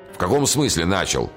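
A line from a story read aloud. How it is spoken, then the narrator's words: Shouted. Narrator (Russian): крикнул кто-то, кажется, генерал Вревский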